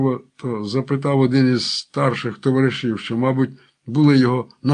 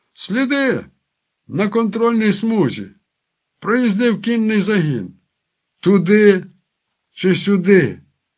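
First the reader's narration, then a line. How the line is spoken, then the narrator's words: Exclamation. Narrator (Ukrainian): Енергійний вигукнув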